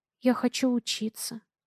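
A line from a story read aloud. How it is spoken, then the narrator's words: Quiet speech. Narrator (Russian): тихо говорю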